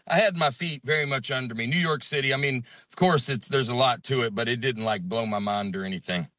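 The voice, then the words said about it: Southern American accent. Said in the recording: “Alabama guy ... my accent, I talk about it on stage ... Southern accents ... that's from my voice”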